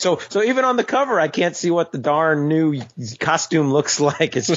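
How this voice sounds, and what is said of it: Usual voice. Nothing is said of it.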